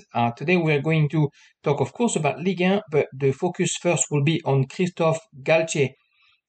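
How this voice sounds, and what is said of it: Speaks English with an accent. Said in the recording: “the football podcast with the accent”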